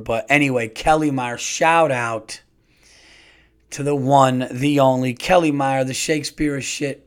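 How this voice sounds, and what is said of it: Worn-out, damaged tired voice. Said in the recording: “my voice is fucked up ... I'm fucking tired”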